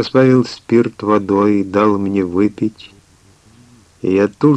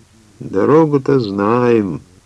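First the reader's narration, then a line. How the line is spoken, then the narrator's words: Very sad driver. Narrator (Russian): очень печально ответил возница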